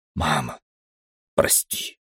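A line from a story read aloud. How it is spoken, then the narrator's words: Soundless whisper, swollen tongue. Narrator (Russian): беззвучно шептал я, еле двигая кровавленным и опухшим языком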